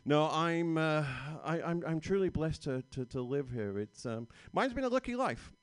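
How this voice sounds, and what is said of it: Noticeable accent. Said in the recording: “mainly because of the accent.”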